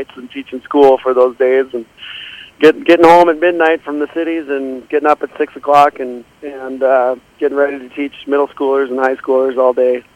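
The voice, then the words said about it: Tired, ragged voice. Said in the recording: “You probably hear it in my voice today. I'm a little ragged today”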